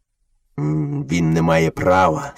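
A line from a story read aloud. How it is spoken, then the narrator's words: Father wolf, angry. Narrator (Ukrainian): сердито почав батько вовк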